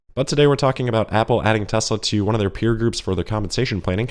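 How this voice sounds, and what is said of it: Sick-sounding voice. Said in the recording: “I am somehow sick again ... apologize for my voice”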